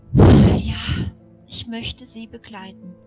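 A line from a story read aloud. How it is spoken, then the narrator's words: Soft sigh. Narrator (German): seufzte sie leise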